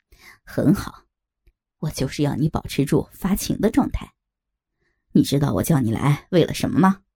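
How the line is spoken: Laughing. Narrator (Chinese): 他笑着说

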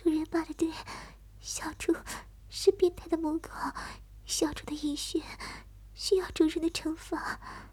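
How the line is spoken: Excited pleading. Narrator (Chinese): 他刺激极了，哀求着我

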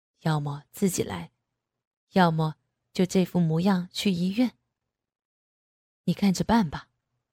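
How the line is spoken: Calm, low voice. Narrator (Chinese): 男人却好整以暇的低声道

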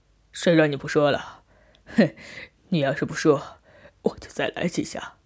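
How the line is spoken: Laughing. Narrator (Chinese): 我笑着说

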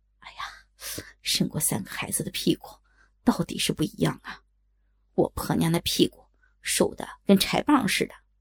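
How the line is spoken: Admiring. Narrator (Chinese): 赞叹声

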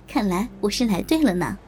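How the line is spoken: Laughing. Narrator (Chinese): 我笑着说

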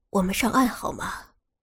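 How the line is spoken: Tender whisper at the ear. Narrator (Chinese): 他温柔的把嘴贴近蓉蓉的耳朵，问道

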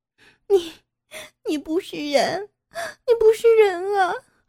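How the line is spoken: Crying out in tears. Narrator (Chinese): 傅菊英流着眼泪哭叫道

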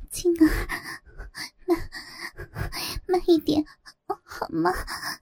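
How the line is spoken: Trembling voice. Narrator (Chinese): 她颤声说

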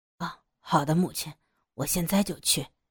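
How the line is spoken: Soft reply. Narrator (Chinese): 明雄明明白白看出来是不想吵醒父亲，他也轻声的答道

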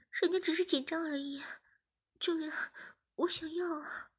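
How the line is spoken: Panting. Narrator (Chinese): 志明喘着气说

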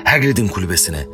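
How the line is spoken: Plain. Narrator (Turkish): dedi Harry

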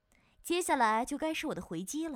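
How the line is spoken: Sinister sneering laugh. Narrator (Chinese): 冲着颤抖的小莲狞笑道

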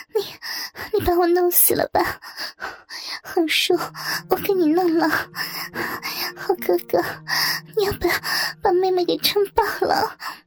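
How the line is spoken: Breathless crying out. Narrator (Chinese): 喘不过气来似的 喊着

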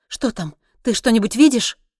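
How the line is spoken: Anxious question. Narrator (Russian): взволнованно спросила

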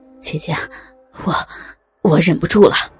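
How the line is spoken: Panting, hoarse. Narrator (Chinese): 他喘着粗气， 嘶哑的对安碧如说

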